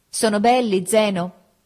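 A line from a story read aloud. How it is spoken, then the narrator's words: Shouted from bed. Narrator (Italian): Ada dal suo letto mi gridò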